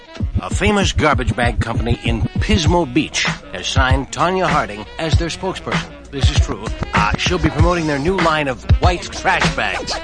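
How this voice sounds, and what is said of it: Johnny Carson impression. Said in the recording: “my Johnny Carson impression.”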